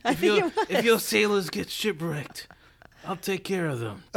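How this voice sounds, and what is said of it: Bad put-on Italian pirate accent. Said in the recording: “Was that supposed to be Italian? ... That sounds very piratey. ... Was that supposed to be a pirate? ... I think it was an Italian pirate. ... terrible accent.”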